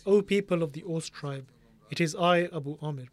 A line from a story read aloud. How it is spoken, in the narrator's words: Abu Amir exclaimed in a loud voice